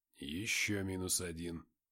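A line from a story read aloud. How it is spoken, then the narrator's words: Soldier muttering. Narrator (Russian): пробормотал сидящий рядом со скифом боец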